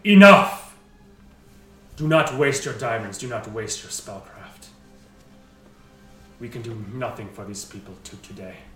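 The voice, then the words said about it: Booming, thunderous loud character voice. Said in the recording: “in a thunderous voice booms”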